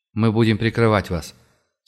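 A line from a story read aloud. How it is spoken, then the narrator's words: Dry curt reply. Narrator (Russian): сухо ответил командир наемников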